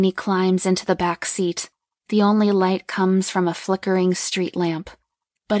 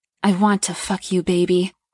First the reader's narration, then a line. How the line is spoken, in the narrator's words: Brett pants out